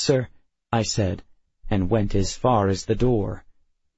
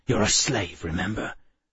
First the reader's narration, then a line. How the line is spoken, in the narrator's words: Sharon hissed